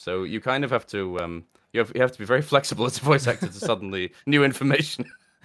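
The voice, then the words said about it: British accent. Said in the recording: “It is very nice to hear a British accent”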